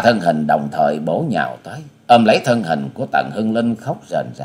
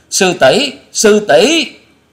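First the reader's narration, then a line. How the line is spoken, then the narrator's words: Terrified screams together. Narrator (Vietnamese): Tạ Trinh Trinh, Bạch Dân Dân, Trịnh Bội Hà cùng kinh hãi rú lên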